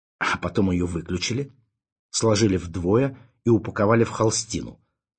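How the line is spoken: Angry. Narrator (Russian): зло добавил Ванзаров

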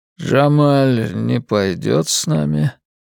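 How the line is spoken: Old man's slow slurred voice. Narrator (Russian): спросил дед размеренным невнятным голосом

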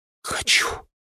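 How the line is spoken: Trembling whisper. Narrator (Russian): прошептала лиса дрогнувшим голосом

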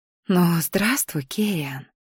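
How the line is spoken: Mouthed whisper. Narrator (Russian): прошептала одними губами

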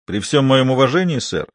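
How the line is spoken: Shouted British accent. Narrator (Russian): прокричал он в ответ с идеальным британским акцентом

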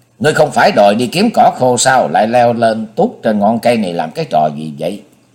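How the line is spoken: Cold. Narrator (Vietnamese): Cô lạnh lùng nói

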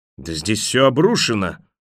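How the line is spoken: Horrified bark. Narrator (Russian): в ужасе рявкнул он

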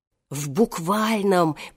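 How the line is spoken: Old man whispering behind door. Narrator (Russian): прошептал за дверью старик Хоттабыч

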